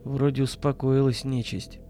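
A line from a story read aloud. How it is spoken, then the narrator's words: Male mutter. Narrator (Russian): пробормотал он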